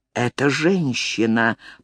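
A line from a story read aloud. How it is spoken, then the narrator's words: Whisper. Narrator (Russian): прошептал Воллеран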